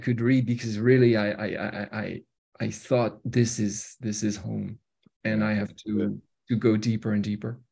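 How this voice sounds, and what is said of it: Strong French accent in English. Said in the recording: “because I am French, as you can hear... my very, very French accent”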